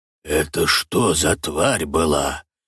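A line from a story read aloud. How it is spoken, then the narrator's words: Whispered question. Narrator (Russian): Шепотом интересуется Буги, с напряжением вглядываясь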